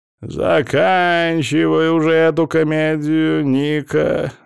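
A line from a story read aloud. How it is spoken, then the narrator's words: Mocking remark. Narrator (Russian): насмешливо бросил он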